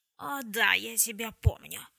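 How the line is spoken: Growling demon. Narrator (Russian): прорычал демон

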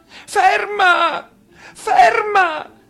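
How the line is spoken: Gentleman shouting. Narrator (Italian): gridò il signore

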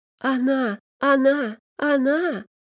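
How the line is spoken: Loud sobbing. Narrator (Russian): В голос зарыдал чертов щенок

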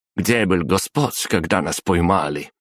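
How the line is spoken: Snorted. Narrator (Russian): фыркнула красноволосая

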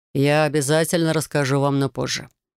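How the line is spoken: Plain. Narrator (Russian): ответил Райт

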